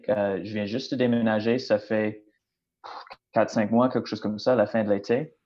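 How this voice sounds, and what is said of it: Non-Québec English Canadian accent in French. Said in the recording (French): “comme mon accent euh, démontre clairement, je ne viens pas du Québec ... je viens de la Colombie-Britannique”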